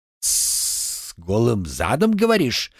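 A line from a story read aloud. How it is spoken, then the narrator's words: Hissing like a snake. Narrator (Russian): прошипел словно змей старший воспитатель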